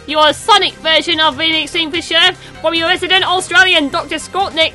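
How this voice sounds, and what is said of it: Poor put-on Australian accent. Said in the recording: “a bit of a terrible Australian accent”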